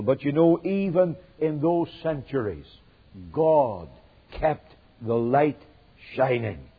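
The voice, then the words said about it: Northern Irish accent. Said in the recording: “I come from a country called Northern Ireland. You'll have noticed by my accent that I'm not really from South Carolina, though I try to sound like it”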